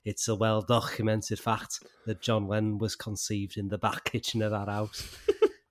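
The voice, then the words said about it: Poor put-on Liverpool accent. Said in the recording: “trying to do a Liverpool accent and it sounds terrible ... a really shit Liverpool accent”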